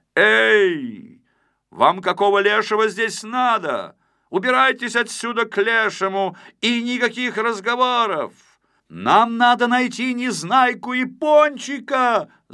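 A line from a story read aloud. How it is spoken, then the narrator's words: Shouting back. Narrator (Russian): закричал в ответ Знайка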